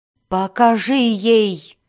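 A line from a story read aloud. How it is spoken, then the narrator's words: Furious growl, teacher. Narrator (Russian): яростно прорычал учитель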